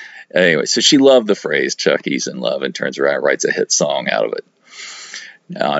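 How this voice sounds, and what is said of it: Usual voice. Nothing is said of it.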